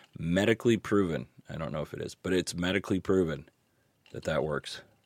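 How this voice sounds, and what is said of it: Hoarse, sick voice that cracks. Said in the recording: “You can probably tell by my voice that I am sick... I am losing my voice... I can't tell if I sound like a really cool smoker guy or just a really pathetic teenage loser because it just cracks at random times... the sore throat”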